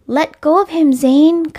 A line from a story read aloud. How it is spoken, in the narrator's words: Kai shouted